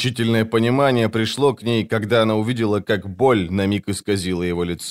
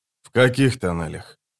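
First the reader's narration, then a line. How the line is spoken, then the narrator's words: Quiet question. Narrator (Russian): тихо спросил он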